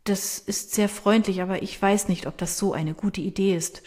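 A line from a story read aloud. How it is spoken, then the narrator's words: Stammering. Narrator (German): stammelt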